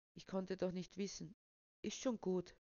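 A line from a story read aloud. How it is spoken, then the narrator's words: Gentle. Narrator (German): sagte Rebecca sanft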